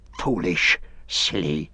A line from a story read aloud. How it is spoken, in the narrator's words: he hissed